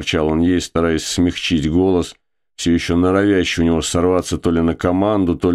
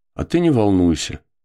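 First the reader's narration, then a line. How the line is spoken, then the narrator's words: Calm, commanding. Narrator (Russian): сказала она спокойно и даже, пожалуй, властно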